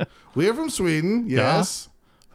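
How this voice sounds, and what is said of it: Poor put-on Swedish accent. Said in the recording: “I'm terrible with accents. Yep. They're always the same person.”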